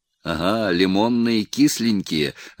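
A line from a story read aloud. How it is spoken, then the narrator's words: Laughing. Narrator (Russian): рассмеялся Голицын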